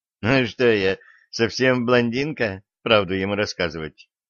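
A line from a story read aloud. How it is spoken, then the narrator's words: Laughing girl. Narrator (Russian): Рассмеялась девушка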